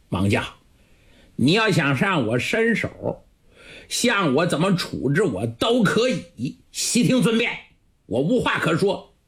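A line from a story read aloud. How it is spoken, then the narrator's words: Cold sneering laugh. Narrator (Chinese): 圣玉冷笑了几声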